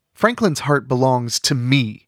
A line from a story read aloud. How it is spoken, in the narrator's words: Rigby snapped